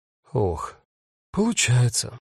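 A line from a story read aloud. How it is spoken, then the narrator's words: Sigh. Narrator (Russian): вздохнула Рут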